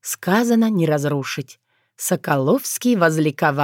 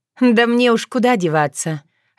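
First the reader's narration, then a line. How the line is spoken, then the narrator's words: Laughing. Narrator (Russian): рассмеялась Таня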